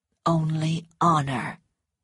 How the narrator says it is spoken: he said quietly

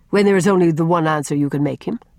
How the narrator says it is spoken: said Ellen, coldly contemptuous

